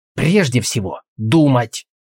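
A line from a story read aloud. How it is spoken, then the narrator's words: Barked. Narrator (Russian): рявкнул Алвис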